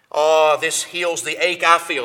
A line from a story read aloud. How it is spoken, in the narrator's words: said